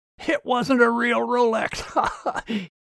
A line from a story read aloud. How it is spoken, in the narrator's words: He had a good laugh